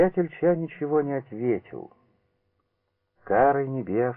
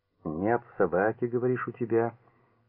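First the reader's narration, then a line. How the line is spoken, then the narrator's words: Calm. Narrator (Russian): спокойно продолжал Порфирий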